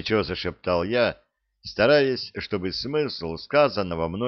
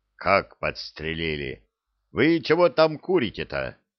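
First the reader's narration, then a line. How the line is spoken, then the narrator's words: Menacing question. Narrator (Russian): грозно спросил командир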